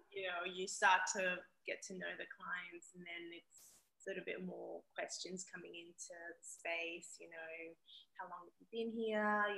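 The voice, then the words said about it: Zimbabwean accent mixed with Australian. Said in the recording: “I think I have a Zimbabwean accent ... I can hear a mix of both. ... It's intertwined.”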